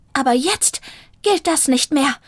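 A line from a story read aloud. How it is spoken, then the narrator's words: Hissing. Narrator (German): fauchte Zelda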